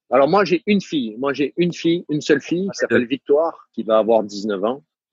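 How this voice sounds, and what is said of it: Southern French accent. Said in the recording (French): “je retrouve mon accent du sud ... Je te rassure, je l'entends.”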